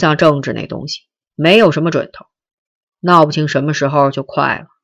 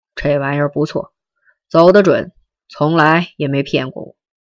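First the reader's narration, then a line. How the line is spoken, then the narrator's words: Smiling. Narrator (Chinese): 他笑着说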